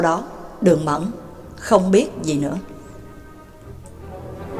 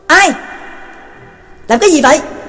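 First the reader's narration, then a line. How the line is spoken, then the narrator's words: Guards shouting loudly. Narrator (Vietnamese): đám binh sĩ hộ vệ quát lớn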